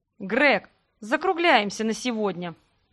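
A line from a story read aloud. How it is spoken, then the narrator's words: Gloomy. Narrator (Russian): мрачно сказала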